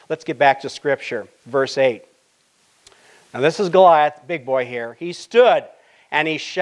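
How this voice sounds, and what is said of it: Usual voice. Nothing is said of it.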